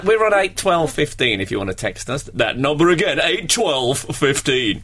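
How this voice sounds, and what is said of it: Radio DJ voice. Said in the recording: “That was my DJ voice.”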